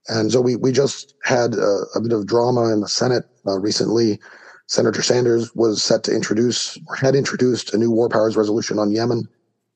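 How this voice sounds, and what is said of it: Slightly hoarse voice. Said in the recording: “I sound a little hoarse. I'm recovering from the cold.”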